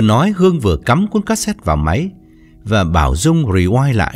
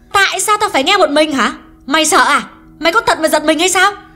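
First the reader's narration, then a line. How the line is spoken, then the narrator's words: Increasingly angry. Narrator (Vietnamese): Hương càng giận dữ hơn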